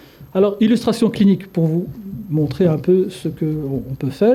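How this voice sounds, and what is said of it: Usual voice. Nothing is said of it.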